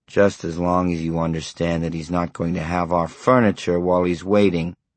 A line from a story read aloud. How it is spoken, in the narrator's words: Herb said grimly